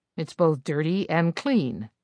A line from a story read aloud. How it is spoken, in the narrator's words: Rex said